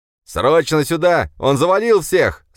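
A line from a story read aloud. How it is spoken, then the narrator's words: Shouting into a radio. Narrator (Russian): закричал четвертый в какое-то переговорное устройство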